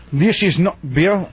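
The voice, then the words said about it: Unconvincing put-on German accent. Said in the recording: “you got to do it in a German accent. ... is that German? ... It's like a Scottish Icelandic or something. ... A for effort.”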